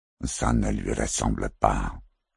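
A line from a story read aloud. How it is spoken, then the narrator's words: Gloomy murmur. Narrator (French): murmura Bilo Maitrelli d'un air sombre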